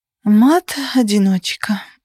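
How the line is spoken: Sighing. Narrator (Russian): вздохнула я

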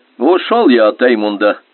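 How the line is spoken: Cheerful young man. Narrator (Russian): весело поведал молодой Гёт

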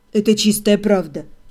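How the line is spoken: Calm confirmation. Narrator (Russian): спокойно подтвердил он

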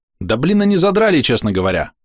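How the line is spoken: Snort. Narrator (Russian): фыркнул Ниган

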